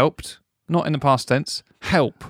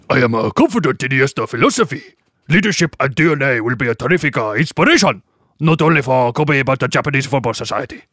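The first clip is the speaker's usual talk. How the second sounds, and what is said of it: Put-on Japanese accent. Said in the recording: “I'm going to do my amazing Japanese accent ... That's actually very good.”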